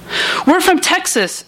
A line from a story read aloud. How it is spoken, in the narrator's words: shouted over the blare